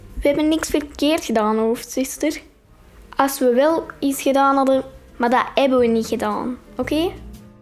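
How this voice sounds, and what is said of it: Very broad flat Dutch accent. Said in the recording (Dutch): “En heeft zo'n heel plat accent.”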